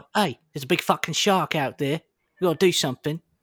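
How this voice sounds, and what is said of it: Cockney Jason Statham impression. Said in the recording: “Jason Statham is just Cockney ... pretty good impression ... pretty solid impression”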